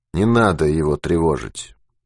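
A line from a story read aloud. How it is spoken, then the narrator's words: Reluctant, through gritted teeth. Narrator (Russian): Процедил Ермаков неохотно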